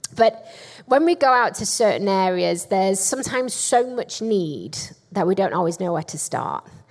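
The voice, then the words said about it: Croaky, strained voice. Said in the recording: “I'm losing my voice up here ... keep going croaky on you”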